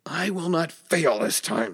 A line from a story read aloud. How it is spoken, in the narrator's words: snapped Angar, clenching his teeth